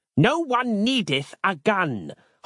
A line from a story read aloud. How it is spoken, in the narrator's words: Harland snapped again